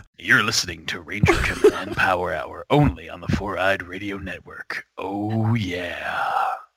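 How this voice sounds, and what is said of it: Very deep, bassy sick voice. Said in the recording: “I've just got a super bassy voice. ... That sounds so weird. Like, it does not sound like you. ... I love my sick voice. ... It's really down here”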